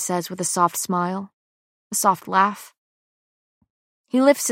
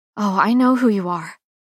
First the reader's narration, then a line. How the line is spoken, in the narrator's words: say breathlessly